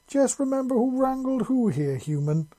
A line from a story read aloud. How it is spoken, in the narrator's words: she said playfully